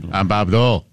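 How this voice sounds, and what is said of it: Norm MacDonald's Bob Dole impression. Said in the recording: “Norm MacDonald had that great impression.”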